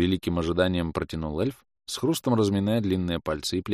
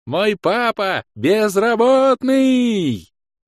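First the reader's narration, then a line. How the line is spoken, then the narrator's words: Ecstatic child's yell. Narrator (Russian): С еще большим восторгом завопила дочь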